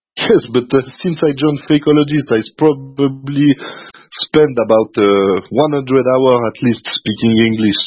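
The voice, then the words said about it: French-accented English. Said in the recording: “I will try to do my best to not lose the accent ... Very good French”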